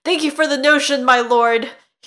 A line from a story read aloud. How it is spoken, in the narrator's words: he blurted out